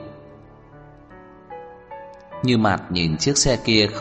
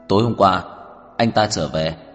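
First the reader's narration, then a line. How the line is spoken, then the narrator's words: Cold question. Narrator (Vietnamese): Tưởng Thiên Lỗi lạnh lùng hỏi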